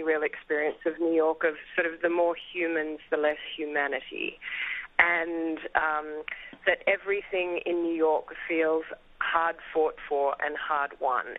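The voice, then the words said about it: Australian accent. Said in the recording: “you have a European accent, I think. ... Oh, I have an Australian accent. ... Australian. Well, okay, foreign accent.”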